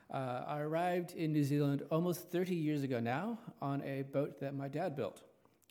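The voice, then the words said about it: American accent. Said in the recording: “As you can tell from my accent, I'm not a local. I originate from Los Angeles, California.”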